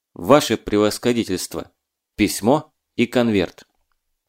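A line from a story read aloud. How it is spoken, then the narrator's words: Weighty statement. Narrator (Russian): Марченко весомо сказал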